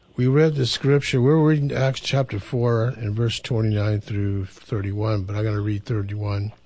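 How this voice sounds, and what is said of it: Hoarse, fading voice. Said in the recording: “I'm losing my voice here”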